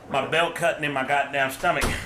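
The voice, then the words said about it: Southern accent. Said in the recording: “he hit it with a southern accent, too.”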